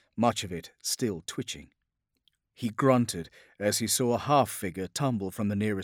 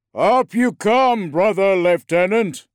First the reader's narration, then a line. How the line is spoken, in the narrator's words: boomed a vox-amplified voice